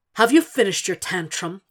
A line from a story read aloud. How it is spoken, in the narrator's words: He snarls